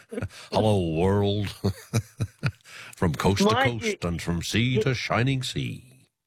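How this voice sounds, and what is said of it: Imitates another person's voice. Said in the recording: “what's going on with your voice? You sound like John Lewis”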